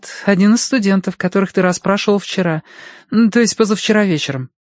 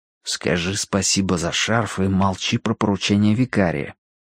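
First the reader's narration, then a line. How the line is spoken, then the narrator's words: Prompting undertone. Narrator (Russian): подсказал вполголоса Данворти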